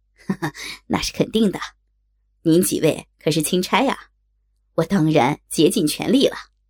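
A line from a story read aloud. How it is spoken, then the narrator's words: Cheeky, grinning. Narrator (Chinese): 孙岩嬉皮笑脸的说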